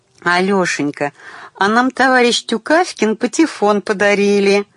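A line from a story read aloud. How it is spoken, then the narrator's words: Joyful female announcement. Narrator (Russian): радостно сообщила она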